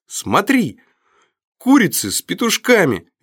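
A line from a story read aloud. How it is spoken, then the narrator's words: Little girl's cheerful shout. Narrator (Russian): весело крикнула девчушка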